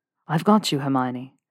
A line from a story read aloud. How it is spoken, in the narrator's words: said quietly into the side of her head